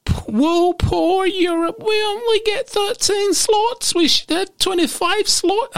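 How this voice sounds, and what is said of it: Mocking put-on unidentified accent. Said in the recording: “I don't know what accent that is”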